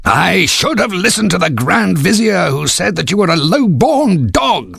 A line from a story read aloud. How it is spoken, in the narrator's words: the Sultan howled